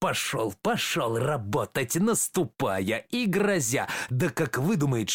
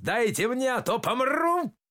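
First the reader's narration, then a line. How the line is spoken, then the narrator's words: Very loud shout. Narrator (Russian): Крикнул так, что расступились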